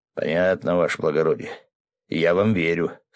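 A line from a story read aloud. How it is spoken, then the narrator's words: Village elder sighing. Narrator (Russian): староста вздохнул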